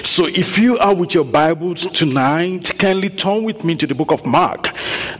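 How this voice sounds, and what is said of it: Speaks with a noticeable accent. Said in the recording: “You would probably have noticed that I have accent”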